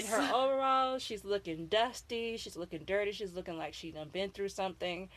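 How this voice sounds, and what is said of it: Florida accent. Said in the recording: “That's a Florida accent.”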